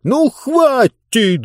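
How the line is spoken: Shouted. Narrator (Russian): закричал Мургатройд

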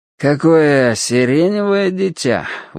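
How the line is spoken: Breathed out. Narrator (Russian): выдохнул спица

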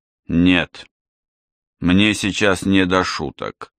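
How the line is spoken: Gloomy answer. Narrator (Russian): мрачно ответил тот

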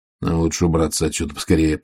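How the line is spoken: Muttering. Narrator (Russian): пробормотал Ваймс

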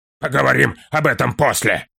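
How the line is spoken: Angry interruption. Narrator (Russian): сердито вмешался Трор

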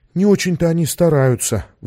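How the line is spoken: Sigh. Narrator (Russian): вздохнула Саша

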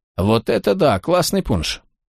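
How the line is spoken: Mumbled. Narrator (Russian): Одна из них пробормотала

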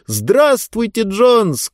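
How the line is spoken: Shouted reply. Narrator (Russian): крикнул в ответ Диба

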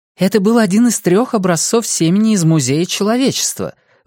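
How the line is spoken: Blurted out. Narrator (Russian): выпалила Мелисса Грюнвальд

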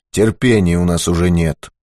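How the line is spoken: Gloomy. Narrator (Russian): мрачно сказал Быков

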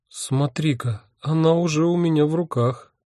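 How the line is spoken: Bewildered. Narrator (Russian): растерянно сообщила Доротея

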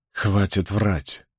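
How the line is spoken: Very quiet rebuke. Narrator (Russian): Очень тихо осадил его Капл

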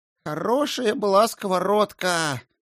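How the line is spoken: Repeated sigh. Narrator (Russian): в очередной раз вздохнул Фридегар

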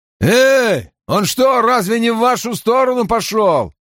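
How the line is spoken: Shout. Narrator (Russian): крикнув

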